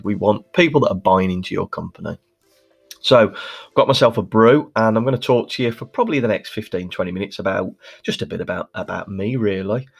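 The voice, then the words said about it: Birmingham accent. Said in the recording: “as you can probably hear from my accent, I'm Birmingham born and bred ... it was voted as one of the worst accents in the UK”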